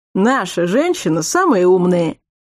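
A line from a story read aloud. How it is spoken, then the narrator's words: Chuckling self-correction. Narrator (Russian): старший Мастгури хохотнул и поправился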